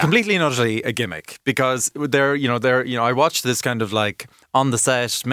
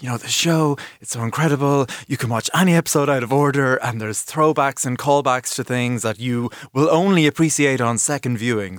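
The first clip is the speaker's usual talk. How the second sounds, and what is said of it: Imitates another person's voice. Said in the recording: “Fabulous impersonation”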